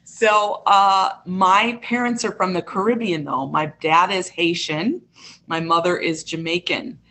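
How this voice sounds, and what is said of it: Midwestern American accent. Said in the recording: “You can kind of hear my Midwestern accent.”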